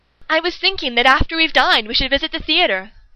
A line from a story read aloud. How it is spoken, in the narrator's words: Holmes proclaims brightly